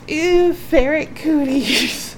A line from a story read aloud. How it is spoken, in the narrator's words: Ginny managed to catch her breath enough to gasp